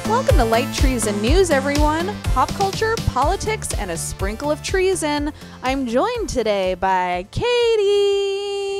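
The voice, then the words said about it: Radio announcer voice. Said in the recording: “I like the radio announcer voice.”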